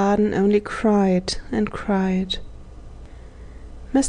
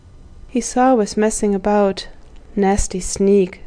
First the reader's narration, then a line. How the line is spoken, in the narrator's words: said Edred